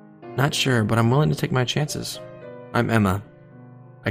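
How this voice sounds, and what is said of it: Usual voice. Nothing is said of it.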